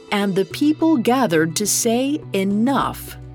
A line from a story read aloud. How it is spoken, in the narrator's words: exclaiming to the heavens